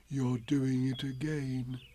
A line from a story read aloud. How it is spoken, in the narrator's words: said Pooh sadly